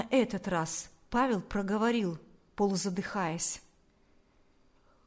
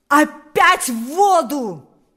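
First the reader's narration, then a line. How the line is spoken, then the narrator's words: Shout. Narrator (Russian): закричал теперь уже сам Паисий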